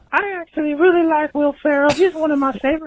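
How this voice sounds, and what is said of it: Southern American accent. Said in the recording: “like a southern accent”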